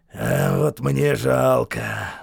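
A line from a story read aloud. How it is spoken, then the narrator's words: Sighed. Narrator (Russian): вздохнул Хейксвилл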